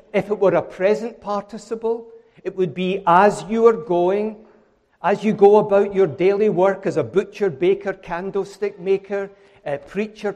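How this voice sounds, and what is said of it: Scottish accent. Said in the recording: “I know I'm Scottish, but bear with me. The accent will help you.”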